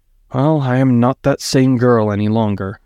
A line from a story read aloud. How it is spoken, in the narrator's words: Inara sighed